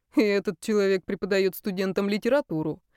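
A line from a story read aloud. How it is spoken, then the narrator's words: Smirking snort. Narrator (Russian): хмыкнул Даниил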